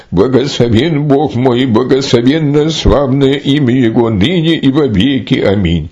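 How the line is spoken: Exclamation. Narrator (Russian): Нифон воскликнул

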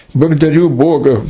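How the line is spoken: Exclamation. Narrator (Russian): воскликнул

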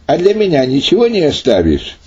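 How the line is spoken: Laughing while speaking. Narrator (Russian): засмеявшись, сказал

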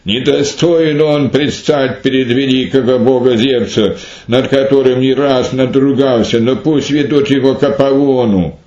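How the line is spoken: Angry crowd shouting. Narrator (Russian): Те, увидев его, с гневом закричали

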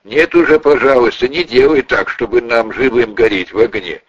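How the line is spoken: Laughing. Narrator (Russian): засмеялись и сказали

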